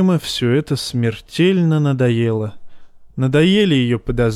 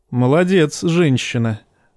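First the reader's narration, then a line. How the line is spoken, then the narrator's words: Laughing. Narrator (Russian): засмеялся Джейма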